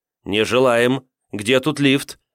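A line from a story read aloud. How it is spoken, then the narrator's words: Stern question. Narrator (Russian): строго спросила Тавра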